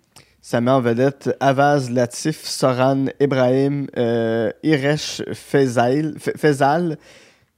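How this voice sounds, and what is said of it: Quebec French accent from Gatineau. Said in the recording (French): “Désolé de mon, de mon accent de Gatineau”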